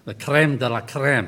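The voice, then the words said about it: French phrase in Scottish accent. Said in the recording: “That's French with a Scottish accent”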